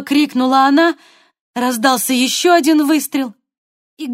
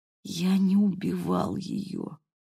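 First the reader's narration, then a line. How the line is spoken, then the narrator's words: Whisper. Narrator (Russian): прошептал Гэвин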